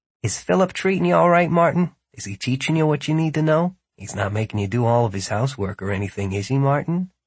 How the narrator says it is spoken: quietly enough that Philip couldn't hear, but without whispering, asked

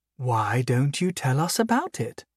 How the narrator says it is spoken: Arabelle asked sweetly

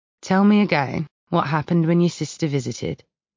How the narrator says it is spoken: he says, his tone calm, almost casual

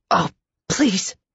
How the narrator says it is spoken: Carmen gasped

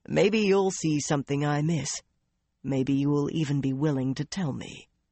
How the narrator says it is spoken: his tone became more serious

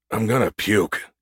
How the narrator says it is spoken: Gus muttered as the truck took another sickening dip

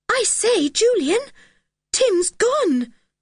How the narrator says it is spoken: said George in a scared voice

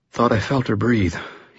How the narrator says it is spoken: he panted, his tone subdued

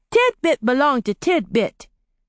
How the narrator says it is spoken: he said cheerfully

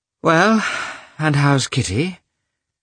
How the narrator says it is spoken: she asked with a deep sigh

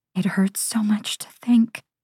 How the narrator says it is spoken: I whisper

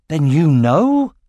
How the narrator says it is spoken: exclaimed Aragorn, astonished

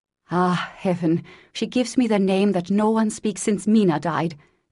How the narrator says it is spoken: cried the professor

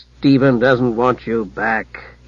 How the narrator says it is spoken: Hugh growled

